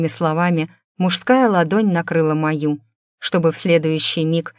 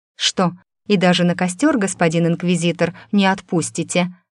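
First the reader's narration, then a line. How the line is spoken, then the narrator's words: Smirking question. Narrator (Russian): хмыкнув, уточнила я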